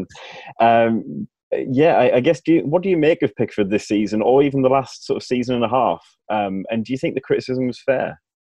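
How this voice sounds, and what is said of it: Regional hometown English accent. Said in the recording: “a hometown hero of mine, as you can tell, probably from the accent.”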